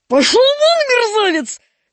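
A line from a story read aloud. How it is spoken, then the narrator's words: Shouted. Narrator (Russian): крикнул на него Мигунов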